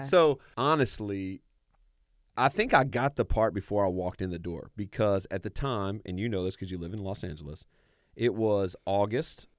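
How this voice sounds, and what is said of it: Southern American accent. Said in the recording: “I do have a Southern accent.”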